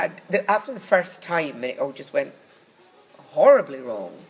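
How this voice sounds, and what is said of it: Usual voice. Nothing is said of it.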